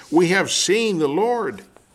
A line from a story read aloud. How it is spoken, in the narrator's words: exclaimed to him